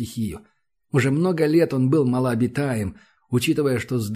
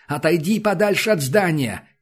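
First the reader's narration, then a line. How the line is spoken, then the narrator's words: Shout while rushing past. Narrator (Russian): крикнул промчавшийся мимо Крашенинников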